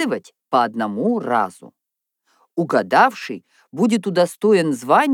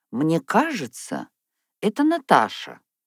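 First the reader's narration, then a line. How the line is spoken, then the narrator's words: Uncertain. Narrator (Russian): неуверенно произнесла Софья Михайловна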